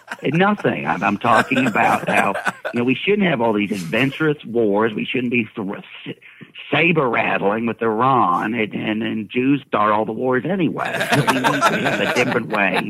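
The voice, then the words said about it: Imitates another person's voice. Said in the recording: “doing an impression of Ron Paul”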